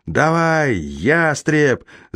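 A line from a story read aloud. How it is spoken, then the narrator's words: Yelling in chorus. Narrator (Russian): завопила я вместе с отрядом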